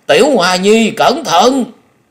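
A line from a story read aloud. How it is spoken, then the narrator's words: Old man's shriek. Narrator (Vietnamese): Lão kêu rú lên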